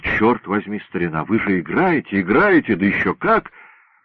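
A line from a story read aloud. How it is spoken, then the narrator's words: Breathless exclamation. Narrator (Russian): Прибежал доктор Стенерсон и, едва переведя дух, воскликнул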